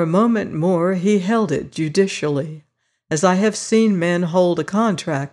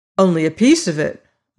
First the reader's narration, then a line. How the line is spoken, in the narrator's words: I exclaimed, always lightly